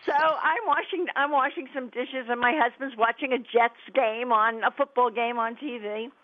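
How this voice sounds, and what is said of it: New York New Jersey accent. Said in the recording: “We're from the New York, New Jersey area, which everybody can probably tell from my accent... what New York, New Jersey accent sounds like”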